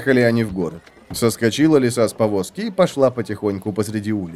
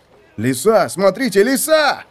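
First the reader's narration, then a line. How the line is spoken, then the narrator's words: Crowd shouting. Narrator (Russian): закричали люди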